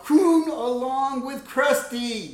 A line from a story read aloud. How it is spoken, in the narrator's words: all the kids at the same time shout out